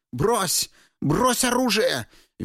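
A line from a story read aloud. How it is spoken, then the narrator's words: Shrill shout, woman. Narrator (Russian): визгливо выкрикнула магичка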